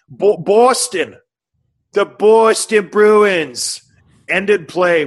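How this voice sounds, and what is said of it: Unconvincing put-on Boston accent. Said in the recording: “Was that a good Boston accent, Tim? ... No.”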